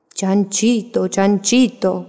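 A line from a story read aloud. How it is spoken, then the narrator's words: Wolf shouting. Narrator (Spanish): gritó el lobo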